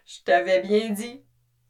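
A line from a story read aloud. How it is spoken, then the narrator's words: Sneering snicker. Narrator (French): ricana X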